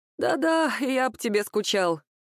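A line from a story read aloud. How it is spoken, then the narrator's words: Sleepy mumble. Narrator (Russian): сонно пробормотал Антон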